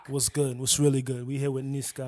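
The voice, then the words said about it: Put-on sexy voice. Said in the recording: “That's sexy me. Voice. ... You know you only do that sexy voice during the intro?”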